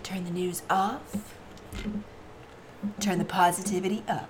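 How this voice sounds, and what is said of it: Announcer-style radio voice. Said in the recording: “in your best radio voice”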